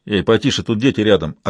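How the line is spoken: Snapped. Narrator (Russian): огрызнулся помощник шерифа

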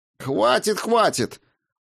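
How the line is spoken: Exclamation. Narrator (Russian): воскликнул я

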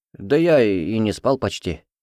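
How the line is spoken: Sigh. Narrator (Russian): вздохнул

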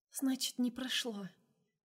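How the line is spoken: Quiet. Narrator (Russian): тихо сказала она

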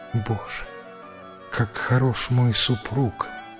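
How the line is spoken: Whisper. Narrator (Russian): прошептала она

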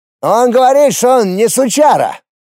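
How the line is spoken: Shout from behind. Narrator (Russian): Из-за спины прокричал Вилка

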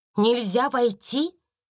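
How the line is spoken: Exclaimed. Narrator (Russian): воскликнула Сара

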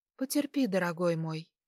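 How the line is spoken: Quiet. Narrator (Russian): Тихо ответила

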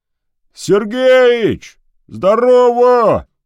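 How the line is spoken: Distant shout. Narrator (Russian): крикнули откуда-то

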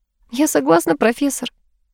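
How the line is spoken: Laughing through tears. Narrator (Russian): рассмеялась она сквозь слезы

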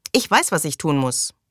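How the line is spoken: Angry. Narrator (German): sagte sie wütend

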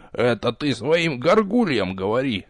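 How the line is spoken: Muttering. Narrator (Russian): пробурчал Нич

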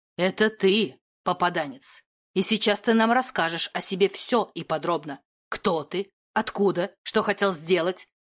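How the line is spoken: Cold objection. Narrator (Russian): Холодно возразил Доминик лжеимператору

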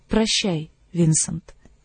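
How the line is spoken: Quiet. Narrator (Russian): тихо сказала она

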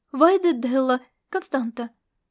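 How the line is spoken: Nervous. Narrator (Russian): волнуясь, проговорила она

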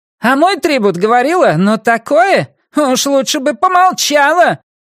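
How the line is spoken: Shrill shout. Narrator (Russian): пронзительно выкрикнула Арахна

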